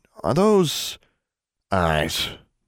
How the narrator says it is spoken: Maximilian grunted

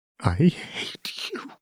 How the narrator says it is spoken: Seraphine whispered

